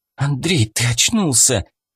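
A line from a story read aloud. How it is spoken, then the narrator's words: Relieved exhale. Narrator (Russian): Облегченно выдохнула Мэй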